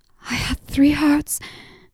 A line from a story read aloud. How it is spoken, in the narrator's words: She choked out